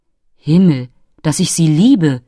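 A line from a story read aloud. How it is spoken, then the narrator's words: Delighted exclamation. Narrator (German): rief der entzückte Biribinka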